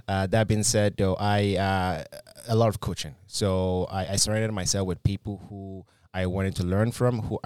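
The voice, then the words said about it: Slight Nigerian accent. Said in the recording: “when I came from Nigeria, I had a bit of a heavy accent. Some of my accent's still there”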